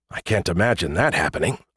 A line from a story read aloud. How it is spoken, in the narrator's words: I muttered